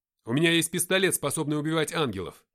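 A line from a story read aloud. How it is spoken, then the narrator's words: Shout while running. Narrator (Russian): крикнул я на бегу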